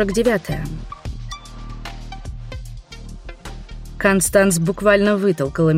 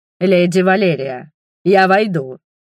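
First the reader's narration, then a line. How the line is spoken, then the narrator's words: Growled. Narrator (Russian): прорычал инквизитор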